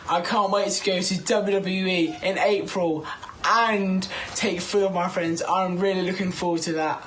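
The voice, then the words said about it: Distinctive regional accent. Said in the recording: “I love Man, that, how he says podcast... I love that accent”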